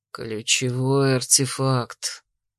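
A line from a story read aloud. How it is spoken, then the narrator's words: Quiet exasperated mutter. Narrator (Russian): не выдержав, тихо процедил Дрейк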